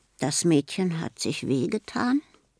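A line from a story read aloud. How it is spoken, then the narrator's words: Quiet question. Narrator (German): fragt leise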